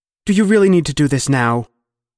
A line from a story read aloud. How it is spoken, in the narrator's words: his mother snapped